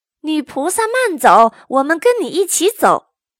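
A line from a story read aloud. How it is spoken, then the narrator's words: Anxious loud shout. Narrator (Chinese): 八戒急了 大声对姑娘喊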